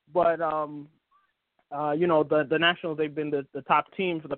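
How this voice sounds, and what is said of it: Usual voice. Nothing is said of it.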